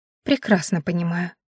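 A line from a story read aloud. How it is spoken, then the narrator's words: Calm. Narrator (Russian): спокойно ответила Рена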